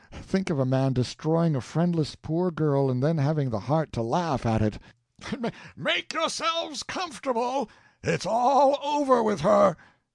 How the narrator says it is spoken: Cochon he shouted, laughing

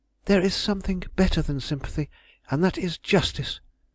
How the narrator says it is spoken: with the cold haughtiness she exclaimed

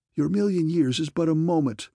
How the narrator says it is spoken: I gasped wildly

